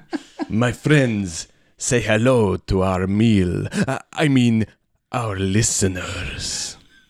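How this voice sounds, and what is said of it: Put-on Transylvanian Dracula-style accent. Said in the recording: “transition out of this accent ... what's Halloween-y about a Russian man? ... It's from Transylvania.”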